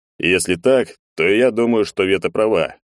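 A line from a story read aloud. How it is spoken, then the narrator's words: Thoughtful, serious. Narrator (Russian): задумчиво и серьезно произнес Егор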